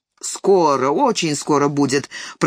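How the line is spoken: Grumbling. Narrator (Russian): пробурчал подполковник

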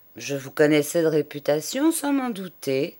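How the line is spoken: Plain. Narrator (French): répondit M

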